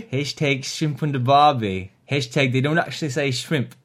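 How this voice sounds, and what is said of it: Put-on Australian accent drifting Cockney. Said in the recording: “Straya... I don't quite know what accent this is anymore... It's gone Cockney-ish... Or maybe it's Long Island”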